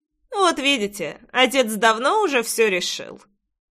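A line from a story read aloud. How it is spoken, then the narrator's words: Wry snort. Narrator (Russian): хмыкнул Джексон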